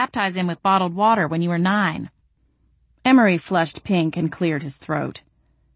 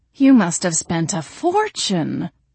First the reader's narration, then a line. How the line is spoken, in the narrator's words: he exclaimed